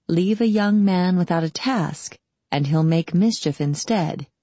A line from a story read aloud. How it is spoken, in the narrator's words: he'd said